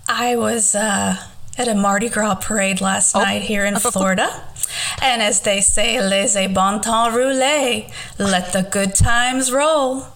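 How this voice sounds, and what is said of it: Strained, worn-out hoarse voice. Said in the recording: “your voice might be a little bit shot ... As you can tell by my voice”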